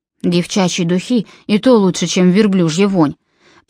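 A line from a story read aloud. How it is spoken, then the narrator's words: Grumbling. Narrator (Russian): проворчал Джон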